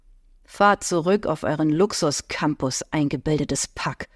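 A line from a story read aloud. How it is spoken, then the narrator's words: Muttering. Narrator (German): höre ich ihn murmeln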